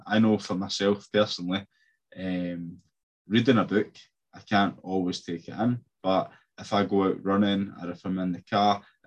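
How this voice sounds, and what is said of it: Noticeable accent. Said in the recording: “I'll slow it down because of my accent.”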